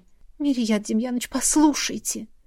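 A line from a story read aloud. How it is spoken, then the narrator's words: Whisper. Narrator (Russian): зашептала я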